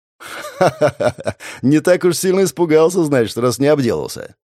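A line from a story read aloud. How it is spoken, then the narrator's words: Laughing. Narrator (Russian): рассмеялся я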